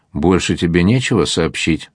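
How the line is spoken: Plain. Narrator (Russian): спросил адмирал

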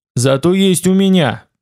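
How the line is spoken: Growled. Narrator (Russian): прорычал я

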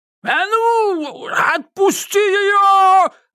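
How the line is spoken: Frantic screaming. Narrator (Russian): завопил Додоныч, как резанный

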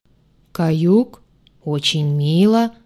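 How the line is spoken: Booming creature voice. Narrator (Russian): прогудело существо

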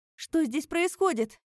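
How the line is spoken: Shouting over noise, female. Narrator (Russian): крикнула она Калахуну, перекрывая шум

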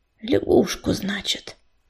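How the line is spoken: Mutter. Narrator (Russian): пробормотала она

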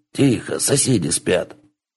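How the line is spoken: Hushed hiss. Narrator (Russian): Кицуне пришипелась

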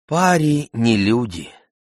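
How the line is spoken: Sighing. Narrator (Russian): вздохнула тетя Дильбар

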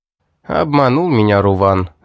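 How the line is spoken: Sighing. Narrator (Russian): вздохнул

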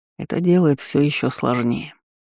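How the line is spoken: Sigh. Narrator (Russian): вздохнул парень

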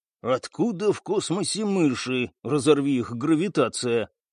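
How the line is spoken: Muffled startled hiss. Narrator (Russian): приглушенно прошипел Стас, почувствовав под рукой что-то мягкое

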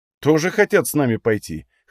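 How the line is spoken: Snorting grunt. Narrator (Russian): хмыкнул

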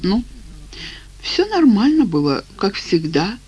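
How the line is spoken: Uncertain. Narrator (Russian): неуверенно сказала она

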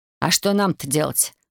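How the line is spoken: Snorted. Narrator (Russian): хмыкнул Станислав

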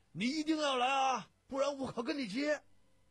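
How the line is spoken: Strained hoarse shout. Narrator (Chinese): 咳着嗓门喊

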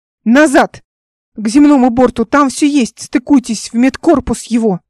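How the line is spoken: Shouted. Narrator (Russian): закричала

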